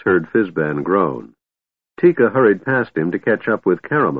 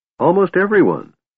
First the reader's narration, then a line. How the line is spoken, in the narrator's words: Tass said cheerfully